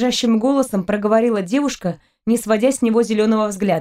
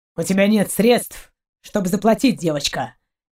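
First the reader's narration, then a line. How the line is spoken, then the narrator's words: Cold, curt. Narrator (Russian): кинул холодно Шейн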